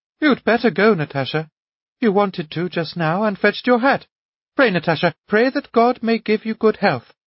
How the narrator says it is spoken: Anna Andreevna persuaded her daughter, looking timidly at her as though she were afraid of her

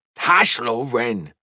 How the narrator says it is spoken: his father snapped

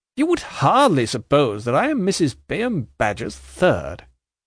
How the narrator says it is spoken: Jarndyce quite triumphantly

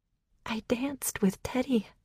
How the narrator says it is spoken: I said, my voice shaking

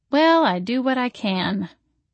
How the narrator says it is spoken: I said flatly

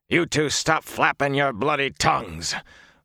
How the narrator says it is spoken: Uno snapped

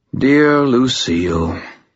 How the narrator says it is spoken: Wraith sighed

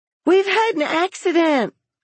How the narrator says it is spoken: the children screamed

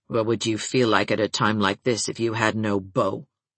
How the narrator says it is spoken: asked Nora abruptly and sullenly

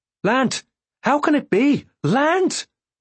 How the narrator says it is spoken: Purr shouted

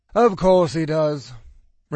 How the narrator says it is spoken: Randall sighed

